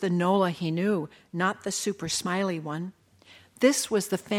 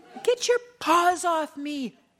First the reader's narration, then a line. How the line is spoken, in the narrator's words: shrieked Nola